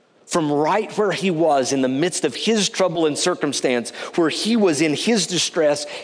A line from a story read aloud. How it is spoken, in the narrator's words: he called out to God knowing God would hear